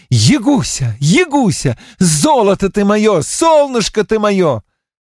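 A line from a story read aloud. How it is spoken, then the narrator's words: Shouting. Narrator (Russian): И так кричал он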